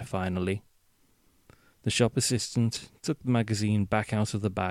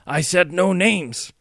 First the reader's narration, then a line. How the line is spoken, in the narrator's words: shouted the silver-haired man